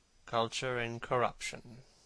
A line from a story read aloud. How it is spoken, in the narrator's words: murmured Dorian